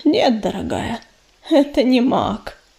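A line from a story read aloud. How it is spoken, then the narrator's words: Sigh. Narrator (Russian): вздохнула пепелица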